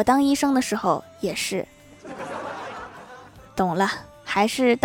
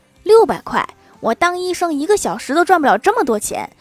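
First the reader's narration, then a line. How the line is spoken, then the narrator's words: Angry. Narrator (Chinese): 医生愤怒地说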